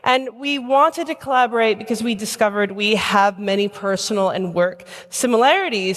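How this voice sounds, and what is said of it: American accent. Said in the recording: “maybe you can tell from my accent, ... I'm an American immigrant living in London”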